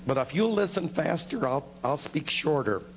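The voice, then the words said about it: Hoarse, failing voice. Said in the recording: “losing my voice.”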